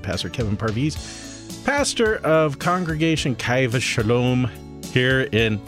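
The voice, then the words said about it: Slight put-on Irish accent. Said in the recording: “I added a little Irish accent for some reason.”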